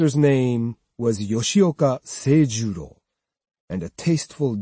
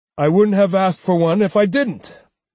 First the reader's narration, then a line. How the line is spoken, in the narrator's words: Seijuro snapped impatiently